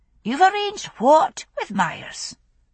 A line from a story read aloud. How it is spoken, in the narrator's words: Jocasta asked sharply, her voice cutting through the babble of exclamations and questions